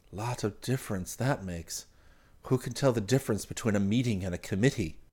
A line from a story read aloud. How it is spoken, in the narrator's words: Chang murmured in Martell's ear